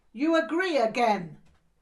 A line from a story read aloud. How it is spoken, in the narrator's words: he shouted